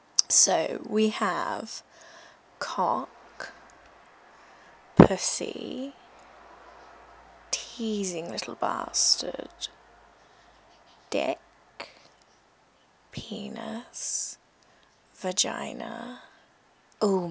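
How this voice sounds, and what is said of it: Slow English accent. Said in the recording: “I'm going to do most of them in my usual slow English accent... I do not sound like this in real life”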